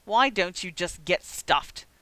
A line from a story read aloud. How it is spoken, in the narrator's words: Severus snapped back at him